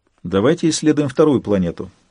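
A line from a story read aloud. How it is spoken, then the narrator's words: Calm suggestion. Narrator (Russian): спокойно предложила Инкуба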